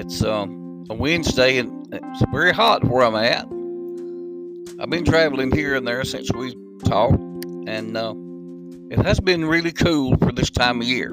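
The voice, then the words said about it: Rural dialect. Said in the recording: “pardon my rural dialect”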